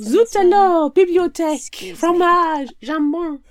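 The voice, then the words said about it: Bad put-on French accent. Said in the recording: “We need bad French accents.”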